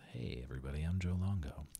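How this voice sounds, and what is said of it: Late-night radio announcer voice. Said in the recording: “it gives me that late night radio voice”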